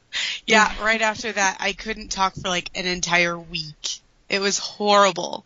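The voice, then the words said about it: Raspy, slightly hoarse voice. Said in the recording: “My voice is still a little weird ... You can still kind of hear like the... raspiness”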